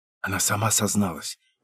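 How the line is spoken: Whisper. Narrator (Russian): прошептала Инна

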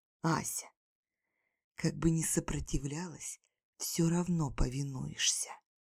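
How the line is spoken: Sinister demonic whisper. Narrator (Russian): прошептал зловеще, похожий на истинного демона

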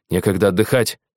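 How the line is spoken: Snapping. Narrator (Russian): сорвался Хизаши

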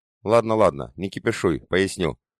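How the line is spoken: After laughing. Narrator (Russian): отсмеявшись, произнес Юркий

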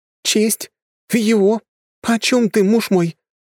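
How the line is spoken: Bewildered exclamation. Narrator (Russian): непонимающе воскликнула Гая

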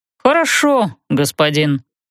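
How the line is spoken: Glum. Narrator (Russian): уныло сказал тот

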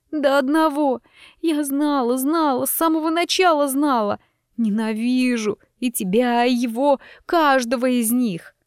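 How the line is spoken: Sobbing, unintelligible. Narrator (Russian): Остальное из-за всхлипов разобрать было невозможно

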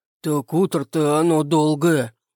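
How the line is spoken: Deep male voice. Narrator (Russian): пробасил усач

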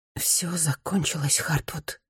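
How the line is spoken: Whisper. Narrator (Russian): шептала Рита в потолок

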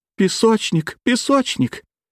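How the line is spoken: Sob-broken cries. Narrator (Russian): прерываемых всхлипываниями криков

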